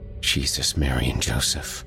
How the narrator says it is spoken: his brother whispered

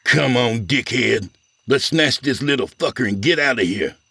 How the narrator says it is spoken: He glared at Aldo and snarled

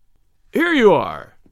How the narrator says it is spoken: he cried

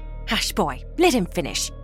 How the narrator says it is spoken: Martha snapped

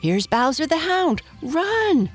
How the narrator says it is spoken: screamed Blacky the Crow

